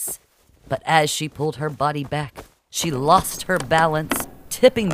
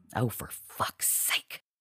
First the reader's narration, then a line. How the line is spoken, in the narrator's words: Marci muttered